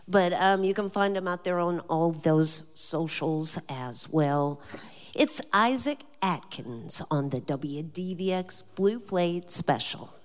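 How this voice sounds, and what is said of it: Southern American accent. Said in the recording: “my southern accent doesn't always pronounce things right”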